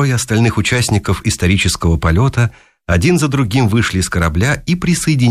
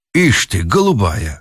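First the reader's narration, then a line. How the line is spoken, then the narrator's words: Snort. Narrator (Russian): хмыкнул Пемпф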